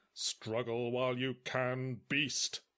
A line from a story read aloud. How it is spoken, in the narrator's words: intoned the priest smugly